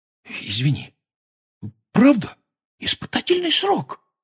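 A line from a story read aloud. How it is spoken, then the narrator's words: Whispering. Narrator (Russian): повторил он шепотом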